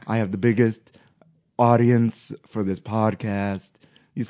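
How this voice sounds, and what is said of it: Put-on Borat-style comic accent. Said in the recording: “That was my other Borat accent.”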